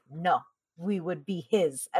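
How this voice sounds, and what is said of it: Put-on Inigo Montoya accent. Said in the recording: “I gave it an Inigo Montoya accent.”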